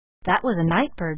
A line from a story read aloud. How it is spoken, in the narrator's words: she muttered